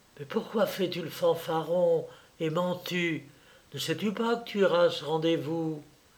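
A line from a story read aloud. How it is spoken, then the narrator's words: Whisper in ear. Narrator (French): Une voix murmura à son oreille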